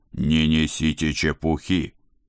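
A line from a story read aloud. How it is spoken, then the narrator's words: Barking boss. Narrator (Russian): рявкнул шеф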